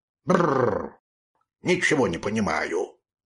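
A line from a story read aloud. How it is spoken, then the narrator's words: Dog muttering. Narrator (Russian): бормотал рыжий пес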